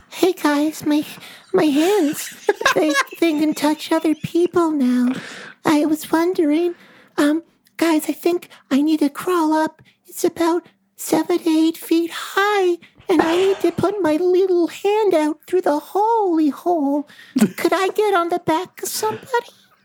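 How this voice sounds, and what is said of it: Doll character voice. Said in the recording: “it doesn't sound like your normal voice because you're a puppet and a doll now ... does your doll voice”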